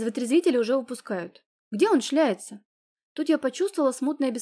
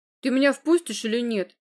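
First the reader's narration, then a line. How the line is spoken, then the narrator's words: Angry question. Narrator (Russian): сердито спросил он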